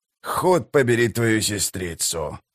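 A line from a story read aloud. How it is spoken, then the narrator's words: Muttered. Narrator (Russian): пробормотал он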